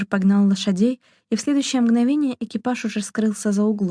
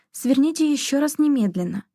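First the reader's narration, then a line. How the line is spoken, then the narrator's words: Exclamation. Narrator (Russian): воскликнула Шона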